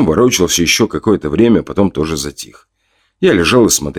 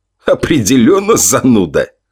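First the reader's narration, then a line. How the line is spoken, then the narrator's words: Snort. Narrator (Russian): Яков хмыкнул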